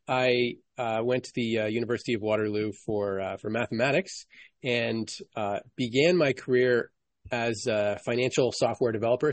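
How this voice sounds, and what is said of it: Canadian North American accent. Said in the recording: “as you may hear from my voice, I'm Canadian or from North America, but I'm Canadian”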